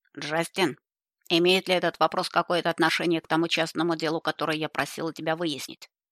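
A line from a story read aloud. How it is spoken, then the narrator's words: Sharp grandmother's question. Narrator (Russian): резко спросила бабушка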